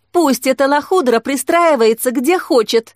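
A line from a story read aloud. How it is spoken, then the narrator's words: Shouting. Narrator (Russian): кричала алмазные глазки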